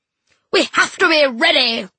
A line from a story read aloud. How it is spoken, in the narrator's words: she roared